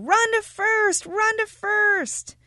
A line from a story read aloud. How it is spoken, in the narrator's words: Everyone started yelling